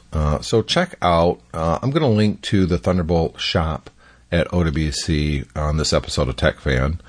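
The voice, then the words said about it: Hoarse, scratchy voice. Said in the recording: “My voice is kind of hoarsey right now. A little scratchy.”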